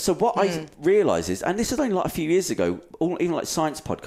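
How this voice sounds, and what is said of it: Usual voice. Nothing is said of it.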